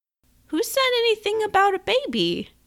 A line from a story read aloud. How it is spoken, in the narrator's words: Her voice came out higher than she'd expected, and climbed higher still